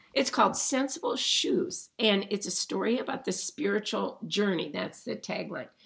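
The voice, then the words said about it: Strained, throat-clearing voice. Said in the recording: “sorry about my voice”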